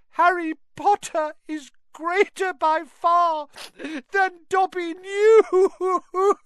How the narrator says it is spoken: he sobbed

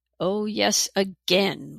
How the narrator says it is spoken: roared Kirra

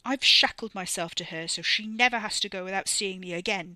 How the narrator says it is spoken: Wes snapped, a voice deepened in his indignation

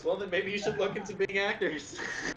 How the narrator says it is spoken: laughs and he goes

